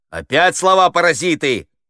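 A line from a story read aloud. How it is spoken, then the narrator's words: Shout. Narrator (Russian): закричал Хуриев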